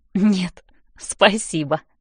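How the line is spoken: Giggling. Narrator (Russian): хихикаю я

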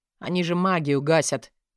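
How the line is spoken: Displeased grumble. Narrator (Russian): недовольно пробурчал Манс

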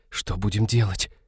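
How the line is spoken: Whispering. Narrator (Russian): прошептала Ивета

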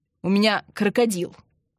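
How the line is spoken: Snapping retort. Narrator (Russian): огрызнулся Андрей

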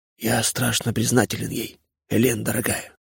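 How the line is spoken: Weak whisper. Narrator (Russian): прошептал Левашов слабым голосом

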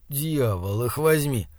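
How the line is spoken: Growling. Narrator (Russian): зарычал Слудик

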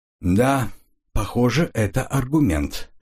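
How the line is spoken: Slow. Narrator (Russian): медленно произнес он

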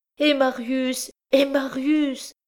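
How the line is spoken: Poor mother crying out. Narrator (French): s'écria la pauvre mère

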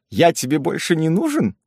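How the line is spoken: Cheerful whisper in ear. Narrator (Russian): весело шепнул де Плугерн на ухо Кларинде

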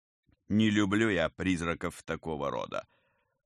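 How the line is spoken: Grumbling. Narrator (Russian): проворчал Герман

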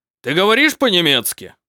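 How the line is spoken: Domineering barking baron. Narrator (Russian): рявкнул барон, считая, что властный тон

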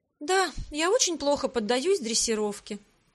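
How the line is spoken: Sighing. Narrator (Russian): вздохнула

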